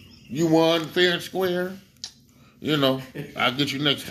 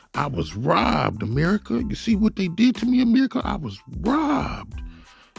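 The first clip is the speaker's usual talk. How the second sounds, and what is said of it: Imitates another person's voice. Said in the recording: “In my Bernie Mac voice”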